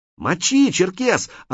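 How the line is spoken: Excited shout. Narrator (Russian): азартно закричал Крот

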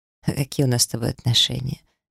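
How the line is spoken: Unexpectedly soft question. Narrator (Russian): неожиданно мягко спросил он

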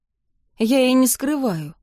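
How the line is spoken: Sighing. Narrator (Russian): вздохнула я

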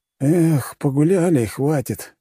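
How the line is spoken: Sighing. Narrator (Russian): вздохнул Максим, младший брат

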